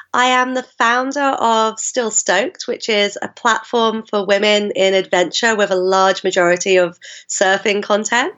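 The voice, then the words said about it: Mixed South London English accent. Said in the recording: “the accent gives it away, although I kind of have a bit of a mongrel accent. I grew up in South London”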